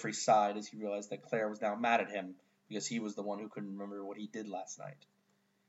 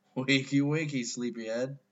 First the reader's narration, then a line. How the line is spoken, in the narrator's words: Jeffrey groaned from his bed